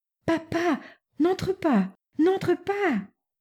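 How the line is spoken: Urgent exclamation. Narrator (French): s'écria Natacha

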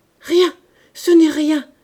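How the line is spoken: Choked voice. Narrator (French): dit enfin la blanchisseuse d'une voix étranglée

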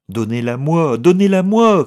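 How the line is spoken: Shouted. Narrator (French): cria Milady

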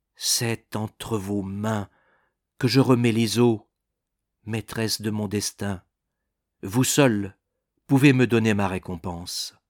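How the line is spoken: Ardent voice. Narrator (French): dit d'une voix ardente

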